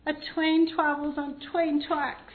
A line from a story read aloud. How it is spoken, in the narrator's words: Rodney replied miserably